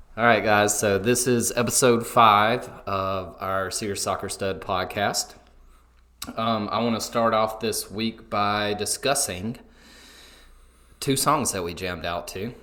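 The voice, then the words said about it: Southern American twang. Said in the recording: “a beautiful Southern twang”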